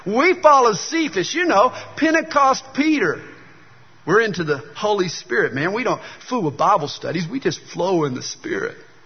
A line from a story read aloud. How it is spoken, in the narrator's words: From the third corner, somebody shouted